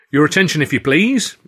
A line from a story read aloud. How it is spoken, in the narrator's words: he said, raising his voice only slightly